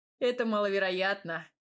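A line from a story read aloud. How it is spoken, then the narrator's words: Chuckling young man. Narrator (Russian): хохотнул парень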